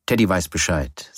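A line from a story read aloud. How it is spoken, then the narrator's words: Plain. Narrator (German): sagte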